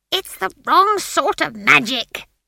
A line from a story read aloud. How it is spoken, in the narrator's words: screeched Granny